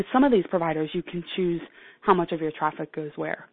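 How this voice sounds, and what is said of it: Hoarse, froggy throat. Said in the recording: “I have a frog in my throat”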